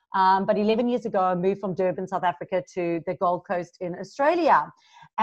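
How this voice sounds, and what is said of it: Mixed South African accent. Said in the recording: “I'm originally from South Africa, so you hear a little bit of a mixed accent.”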